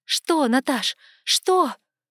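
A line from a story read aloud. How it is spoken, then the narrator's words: Shout. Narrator (Russian): На секунду, ощутив себя живой и прежней, я закричала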